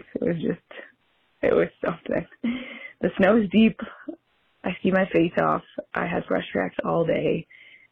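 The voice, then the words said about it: Hoarse, mostly lost voice. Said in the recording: “You can hear a pretty ... hoarse from scream laughing in the powder so long. I've lost most of my voice.”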